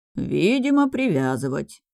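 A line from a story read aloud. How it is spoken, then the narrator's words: Nasal mutter. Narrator (Russian): в нос пробурчал монах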